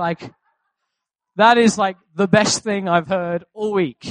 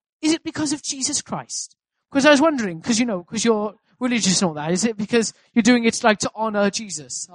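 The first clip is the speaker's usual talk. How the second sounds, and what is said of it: Attempted South Wales Valleys accent. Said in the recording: “I'll try my best at like a South Wales Valleys accent”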